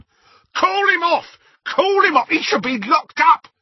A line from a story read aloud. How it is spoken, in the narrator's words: screamed Mundungus, cowering